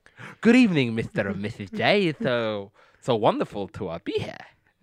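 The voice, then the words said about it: Imitates a character's odd accent. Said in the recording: “with his weird accent of his”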